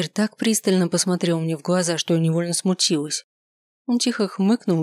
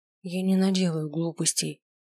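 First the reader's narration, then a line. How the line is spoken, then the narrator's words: Quiet. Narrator (Russian): тихо сказала я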